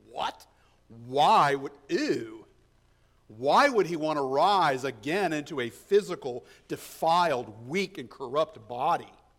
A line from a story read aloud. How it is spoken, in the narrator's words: they did scoff